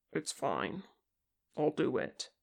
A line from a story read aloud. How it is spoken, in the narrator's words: Kim said, making his voice as steady as possible